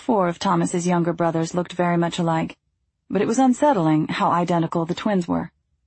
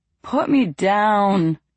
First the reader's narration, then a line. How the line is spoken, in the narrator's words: Joe groaned